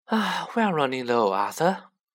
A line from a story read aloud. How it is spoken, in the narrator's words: she sighed